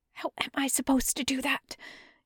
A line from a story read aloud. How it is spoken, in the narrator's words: Yunlan hisses loudly at Yizun's retreating back